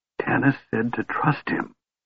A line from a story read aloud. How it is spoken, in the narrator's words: whispered swiftly